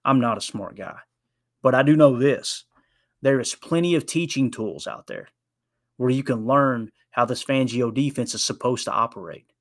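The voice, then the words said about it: Speaks with a noticeable accent. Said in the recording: “you hear my accent.”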